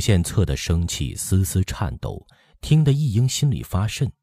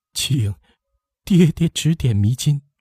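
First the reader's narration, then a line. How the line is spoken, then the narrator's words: Trembling voice. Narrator (Chinese): 一英颤声说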